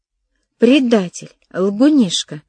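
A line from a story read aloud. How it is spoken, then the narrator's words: Girls exclaiming in unison. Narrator (Russian): дружно воскликнули девушки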